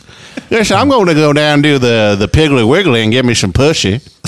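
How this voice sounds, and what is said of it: Put-on Texas accent. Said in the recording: “with the Texas accent.”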